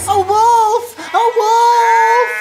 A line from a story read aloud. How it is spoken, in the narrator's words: He shouted to the villagers